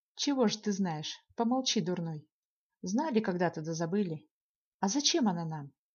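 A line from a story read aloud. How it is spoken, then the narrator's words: Calm. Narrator (Russian): Лев Михайлович спокойно продолжил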